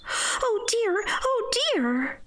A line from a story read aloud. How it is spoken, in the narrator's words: cried Dorothy, in dismay